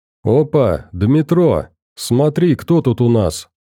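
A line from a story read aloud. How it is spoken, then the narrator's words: Gleeful, grinning. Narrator (Russian): Радостно ухмыльнулся другой страж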